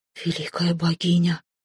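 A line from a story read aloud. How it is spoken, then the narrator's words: King whispering. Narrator (Russian): прошептал король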